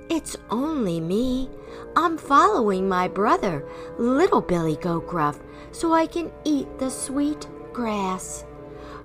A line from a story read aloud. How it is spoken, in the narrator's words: Quaking in his hooves, middle-sized Billy Goat Gruff managed to say in his softest voice